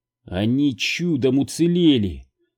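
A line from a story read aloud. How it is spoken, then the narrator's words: Angry whisper. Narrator (Russian): зло прошептала Билли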